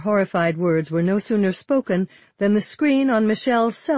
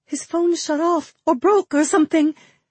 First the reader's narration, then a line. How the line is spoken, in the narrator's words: Michelle gasped